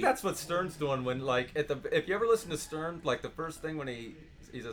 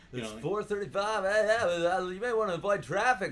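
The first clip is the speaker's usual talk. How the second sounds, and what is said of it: Mock radio announcer voice. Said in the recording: “do a radio voice”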